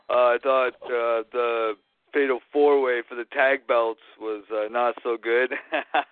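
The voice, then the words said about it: Hoarse, strained voice. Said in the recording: “I think I'm getting a cold. My voice is a little bit shot”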